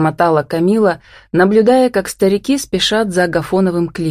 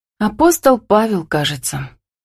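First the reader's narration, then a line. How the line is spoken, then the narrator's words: Sad, reluctant. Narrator (Russian): печально улыбнулась Камила и добавила неохотно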